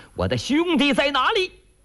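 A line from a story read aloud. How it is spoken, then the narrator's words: Shout. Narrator (Chinese): 穆大虫、顾大嫂喊了一声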